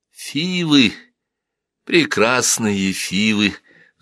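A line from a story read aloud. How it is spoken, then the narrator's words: Sighing. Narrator (Russian): вздохнула Хатшепсут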